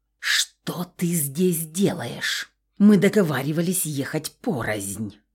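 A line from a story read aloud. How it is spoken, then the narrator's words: Private hiss. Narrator (Russian): прошипела, когда мы остались наедине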